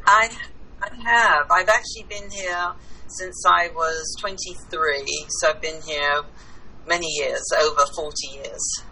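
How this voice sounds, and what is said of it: English accent. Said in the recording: “I'm originally from England ... Kind of, we've caught that. ... I haven't lost my accent”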